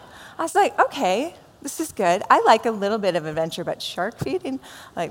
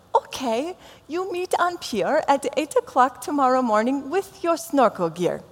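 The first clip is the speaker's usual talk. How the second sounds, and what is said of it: Put-on vague foreign accent. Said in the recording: “I'm not sure what nationality she was, and you're not going to know either when you hear my accent, but I know she had an accent, so I just have to do one”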